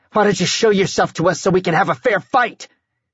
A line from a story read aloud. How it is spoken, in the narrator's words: he shouted at the shifting shadows